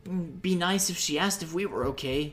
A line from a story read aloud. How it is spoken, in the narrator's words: Link muttered